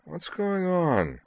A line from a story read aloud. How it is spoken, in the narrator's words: Caitlin inquired sleepily